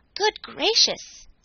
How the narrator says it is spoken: exclaimed Glossie

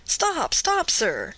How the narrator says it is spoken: cried Candide

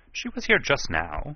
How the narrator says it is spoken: he said a little impatiently

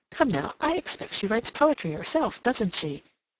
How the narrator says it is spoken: She asked in a jocular tone

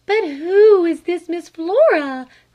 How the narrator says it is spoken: cried her mother

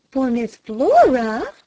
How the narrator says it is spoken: gasped her mother

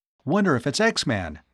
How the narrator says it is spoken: Tom exclaimed

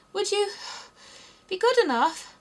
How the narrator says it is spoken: Alice panted out, after running a little further

